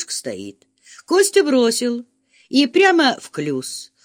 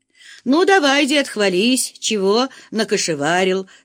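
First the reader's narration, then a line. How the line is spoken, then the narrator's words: Plain. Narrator (Russian): спросил Фома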